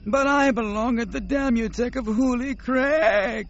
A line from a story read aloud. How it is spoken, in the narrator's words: Nomanor wailed